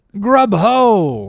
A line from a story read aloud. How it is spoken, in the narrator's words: cried the landlord